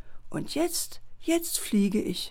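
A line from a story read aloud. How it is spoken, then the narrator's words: Said softly. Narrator (German): Leise sagte sie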